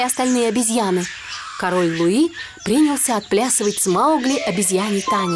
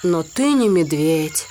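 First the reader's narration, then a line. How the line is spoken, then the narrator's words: Sad reply. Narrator (Russian): грустно ответил Балу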